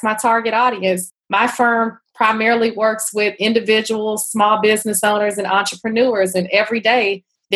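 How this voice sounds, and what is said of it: Texas accent. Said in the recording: “I hear this lovely accent of yours ... that's not a D.C. or Atlanta accent. That's beautiful accent. So you grew up in Texas?”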